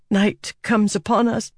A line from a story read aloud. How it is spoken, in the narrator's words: Silence whispered, choking at the words